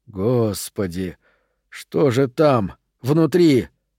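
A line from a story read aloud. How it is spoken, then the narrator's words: Breathless exhale. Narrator (Russian): выдохнул кто-то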